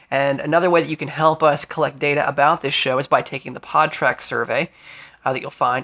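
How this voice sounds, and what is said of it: Voice affected by a cold. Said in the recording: “excuse my voice a bit this week, folks. I've been fighting off a cold.”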